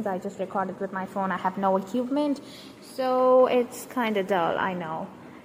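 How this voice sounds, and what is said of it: High-pitched Indian-accented English. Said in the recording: “my high pitched voice is kind of unbearable to hear... about my accent... in india we have like more than 1000 languages and every every language speaking person also speaks english and they have an accent which uh, resembles their own language”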